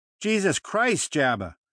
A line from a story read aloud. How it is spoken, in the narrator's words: she yelled